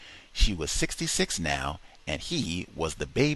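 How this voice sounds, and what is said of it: Usual voice. Nothing is said of it.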